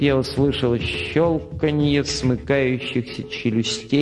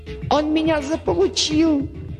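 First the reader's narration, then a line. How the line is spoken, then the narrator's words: Squeal. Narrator (Russian): Взвизгнул Дерг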